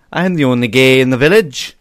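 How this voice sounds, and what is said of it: Put-on Welsh accent. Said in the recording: “the only way I know what a Welsh accent sounds like is to think of Daffyd from Little Britain”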